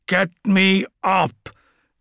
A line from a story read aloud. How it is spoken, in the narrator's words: grunted Albard, straining under the weight of his armour